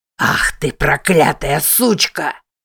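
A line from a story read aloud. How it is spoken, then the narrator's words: Enraged roar. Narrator (Russian): взревел Уильям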